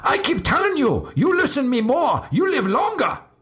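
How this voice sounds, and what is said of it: Exaggerated put-on Asian accent. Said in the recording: “Here's my uh, very offensive Asian accent.”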